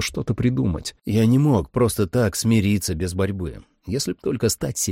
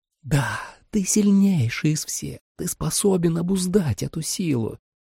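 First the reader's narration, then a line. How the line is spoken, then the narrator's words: Whispered. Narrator (Russian): прошептала Кариня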